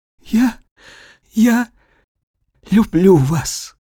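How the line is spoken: Tearful, smiling speech. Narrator (Russian): она улыбнулась ему сквозь слезы и проговорила

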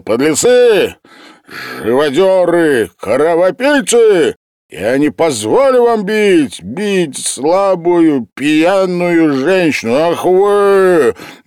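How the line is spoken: Angry indignant shout. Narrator (Russian): со злым негодующим лицом крикнул

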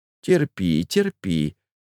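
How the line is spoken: Gentle murmur. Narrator (Russian): ласково бормотала Пелагея Ивановна

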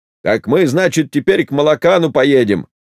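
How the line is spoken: Loud. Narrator (Russian): громко говорил Кузьмичев

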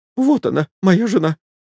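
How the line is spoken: Thin, womanish, tearful voice. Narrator (Russian): сказал Чаликов тонким женским голоском, как будто слезы ударили ему в голову

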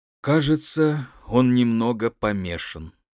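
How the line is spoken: Sad. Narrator (Russian): сказал я печально

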